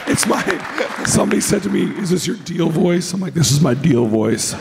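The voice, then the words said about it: Hoarse, deep, gravelly lost voice. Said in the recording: “My voice is gone ... He sounds like a goddamn mountain troll.”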